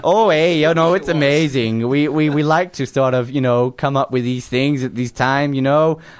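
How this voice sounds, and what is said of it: Strong put-on accent. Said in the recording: “I didn't realise how strong your accent was”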